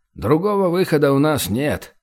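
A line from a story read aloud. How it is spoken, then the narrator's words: Weary sigh. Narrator (Russian): устало вздохнул Вейдин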